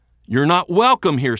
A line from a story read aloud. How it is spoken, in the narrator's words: Smeltzer yells